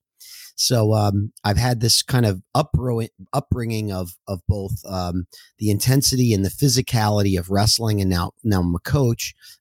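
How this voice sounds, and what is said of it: Hoarse voice. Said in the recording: “why my voice is hoarse today. I was coaching all weekend”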